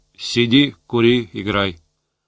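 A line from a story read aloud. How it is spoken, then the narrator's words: Grumbled. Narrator (Russian): Буркнул Валюшку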